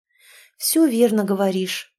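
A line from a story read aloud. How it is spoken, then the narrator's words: Tired agreement. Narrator (Russian): устало согласилась Инна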